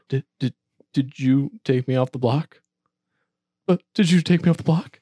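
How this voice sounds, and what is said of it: Imitates another person's voice. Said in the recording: “I'm basically doing an impression of Cody doing an impression of David.”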